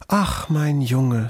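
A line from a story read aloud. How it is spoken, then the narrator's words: Moved vixen sighing. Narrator (German): seufzte die Füchsin gerührt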